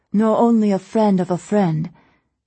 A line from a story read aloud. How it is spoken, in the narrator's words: Heiju, still asleep, rolled over, slurred